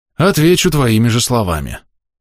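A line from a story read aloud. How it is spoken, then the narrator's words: Sighing. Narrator (Russian): вздохнул Драгон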